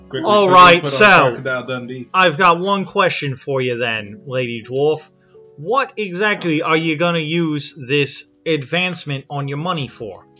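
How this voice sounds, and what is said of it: Put-on Australian accent. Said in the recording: “Australian accent ... Oh, wait, there we go. There it is.”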